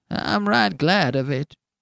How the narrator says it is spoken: whined the old man

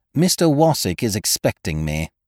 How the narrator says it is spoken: replied coldly

